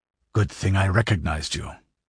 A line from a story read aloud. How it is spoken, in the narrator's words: grunted the barbarian